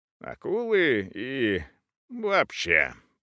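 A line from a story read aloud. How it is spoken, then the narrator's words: Muttered. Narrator (Russian): пробормотал метис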